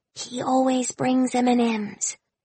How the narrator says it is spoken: Winnie whispered, cupping her hand to my ear in order to protect her secret

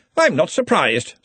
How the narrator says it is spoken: said Ridcully brightly

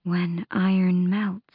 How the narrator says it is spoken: Petra murmured, her blue eyes swimming with tears

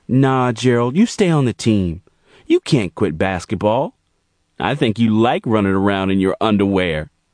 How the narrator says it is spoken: she replied

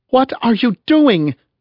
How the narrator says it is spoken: she cried in Norwegian

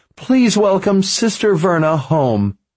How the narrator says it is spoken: Sister Phoebe said, her voice trembling with excitement

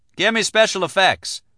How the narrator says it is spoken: Mike called out

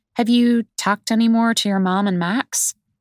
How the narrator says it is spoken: Connor sighs

